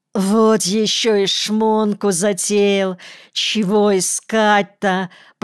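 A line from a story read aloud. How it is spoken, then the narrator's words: Groaning. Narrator (Russian): простонал Девяткин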